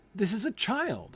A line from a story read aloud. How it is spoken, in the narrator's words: Haya replied eagerly